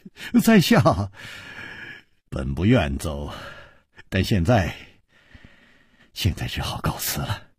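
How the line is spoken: Sigh, wry laugh. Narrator (Chinese): 楚留香叹了一口气，苦笑着说

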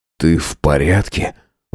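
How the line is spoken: Breathed out. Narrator (Russian): выдохнул

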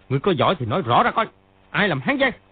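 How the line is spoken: Angry shout. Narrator (Vietnamese): Triệu Chí Kính sa sầm mặt, y quát lên

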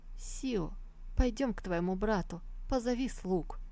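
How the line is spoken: Weary sighing elderly woman. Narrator (Russian): устало старшая дама тяжело вздохнув проговорила

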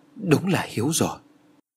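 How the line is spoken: Trembling voice. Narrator (Vietnamese): Nguyệt Ánh run rẩy

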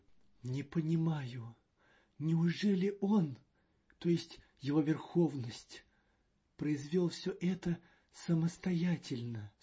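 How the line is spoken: Reverent question. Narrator (Russian): спросил Маньян благоговейным тоном

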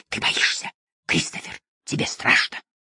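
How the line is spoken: Sinister whisper. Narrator (Russian): на его лице появлялась та самая зловещая усмешка, и он начинал шептать

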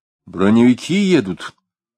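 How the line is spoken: Full-voiced, joyful. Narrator (Russian): полным голосом сказал он, согретый странной радостью

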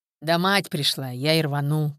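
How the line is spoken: Deep bass reply. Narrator (Russian): пробасил в ответ

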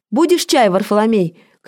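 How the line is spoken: Shouting. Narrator (Russian): крикнула

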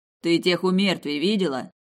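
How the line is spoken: Barked. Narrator (Russian): рявкнул он

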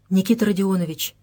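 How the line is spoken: Whisper near ear. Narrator (Russian): прошептал над его ухом

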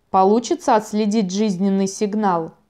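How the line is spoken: Plain question. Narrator (Russian): спросил Булвайф

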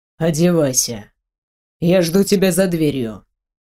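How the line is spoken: Icy tone. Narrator (Russian): ледяным тоном проговорил

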